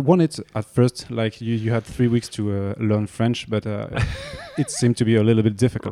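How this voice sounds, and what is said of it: French-accented English. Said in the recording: “my French accent. Sometimes it's really bad”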